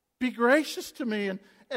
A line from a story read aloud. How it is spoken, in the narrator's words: distress where cries out